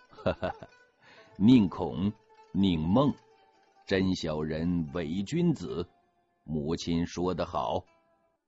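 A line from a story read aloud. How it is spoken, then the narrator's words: Chuckling. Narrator (Chinese): 乾隆呵呵一笑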